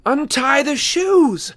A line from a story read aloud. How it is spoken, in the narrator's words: Annabeth shouted